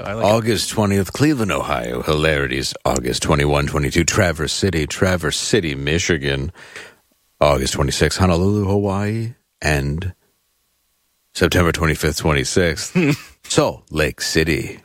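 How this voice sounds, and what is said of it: Smooth radio announcer voice. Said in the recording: “I just like how you get smooth when you do these ... I read it in my very radio voice.”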